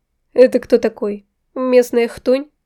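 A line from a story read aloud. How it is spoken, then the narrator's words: Laughing. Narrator (Russian): Я хохотнула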